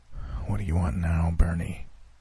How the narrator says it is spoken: I asked with a heavy sigh

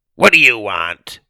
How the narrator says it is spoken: she asked in her rough voice

